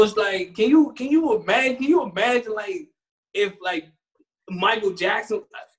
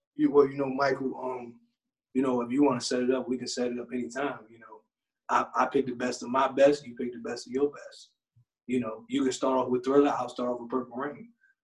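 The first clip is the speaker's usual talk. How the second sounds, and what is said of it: Smooth seductive imitated voice. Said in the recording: “Prince with his Mr. Steal Your Girl voice”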